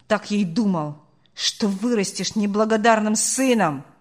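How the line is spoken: Barked farewell. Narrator (Russian): рявкнул он на прощание

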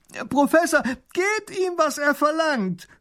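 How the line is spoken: Young grand duke calls. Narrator (German): ruft der kleine Großherzog

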